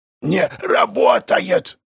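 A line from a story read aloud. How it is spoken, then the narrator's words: Shouting. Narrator (Russian): прокричал кто-то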